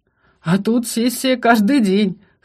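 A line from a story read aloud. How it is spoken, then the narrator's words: Chuckling. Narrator (Russian): хохотнул Шатен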